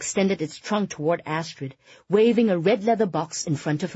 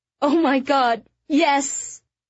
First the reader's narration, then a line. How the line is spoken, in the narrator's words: Astrid cried